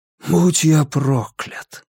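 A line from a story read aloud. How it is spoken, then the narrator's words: Whisper. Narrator (Russian): прошептал Расти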